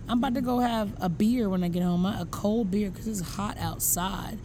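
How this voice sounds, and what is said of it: Southern American accent. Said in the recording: “You're making fun of my accent again ... you're so Southern ... me in like Southern woman, accent”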